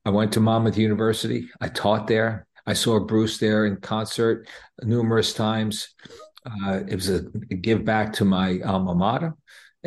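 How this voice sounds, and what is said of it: New Jersey accent. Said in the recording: “I've always kept my identification and relationship with New Jersey. And my accent always gives me away anyway, so people know where I'm from”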